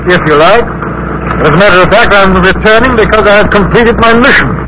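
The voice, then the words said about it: English accent. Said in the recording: “you talk like an Englishman”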